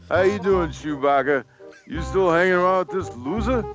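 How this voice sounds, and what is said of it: Billy Dee Williams impression as Lando. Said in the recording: “do a Billy D impression ... it's not quite Billy D, but it's ... as Billy D ... it's amazing!”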